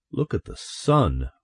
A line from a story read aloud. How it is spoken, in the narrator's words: one of them murmured